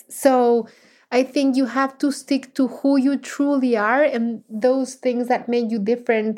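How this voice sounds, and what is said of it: Non-native English accent. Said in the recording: “I was always very embarrassed about my accent because when I moved to the US, I could not string a sentence in English ... I knew I had a very heavy accent ... people recognize me because of my accent and because of the sound of my voice”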